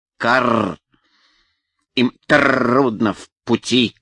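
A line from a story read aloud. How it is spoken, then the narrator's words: Croaking crow voice. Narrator (Russian): картавила ворона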